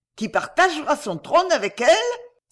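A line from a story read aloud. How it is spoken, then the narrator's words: Carried-away exclamation. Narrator (French): s'écria la duchesse, emportée malgré elle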